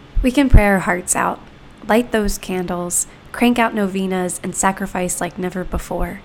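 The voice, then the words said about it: Sick, congested voice. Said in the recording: “if it sounds like I have COVID, it's because I do ... the sound my voice might make”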